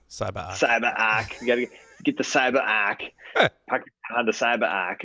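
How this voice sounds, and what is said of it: Boston accent. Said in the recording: “you got to use your Boston accent to say CyberArk”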